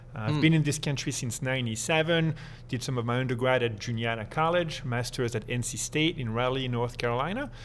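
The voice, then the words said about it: French accent. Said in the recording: “you've maintained that accent ... I am French originally”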